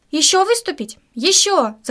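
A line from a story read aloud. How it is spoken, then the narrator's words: Crowd shouting. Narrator (Russian): закричали зрители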